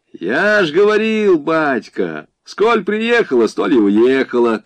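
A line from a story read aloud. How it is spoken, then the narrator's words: Shouting. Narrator (Russian): крикнул один из бандитов, видно лазутчик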